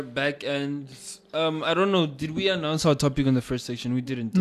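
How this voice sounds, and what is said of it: Usual voice. Nothing is said of it.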